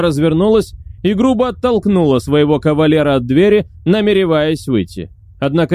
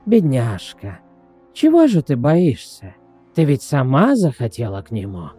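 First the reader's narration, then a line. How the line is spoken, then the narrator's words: Creaky woman's voice. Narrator (Russian): продолжала женщина своим скрипучим голосом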